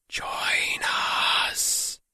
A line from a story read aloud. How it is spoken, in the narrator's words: they whispered